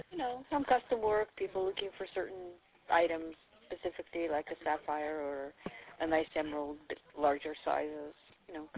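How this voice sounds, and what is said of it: Russian accent in English. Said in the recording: “I believe you have an accent. ... Russia.”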